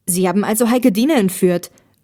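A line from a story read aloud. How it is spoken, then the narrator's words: Angry shout. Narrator (German): rief Olli wütend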